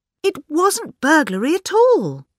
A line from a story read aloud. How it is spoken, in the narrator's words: cried Miss Bunner